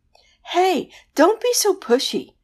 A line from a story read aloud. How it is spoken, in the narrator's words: the banshee wailed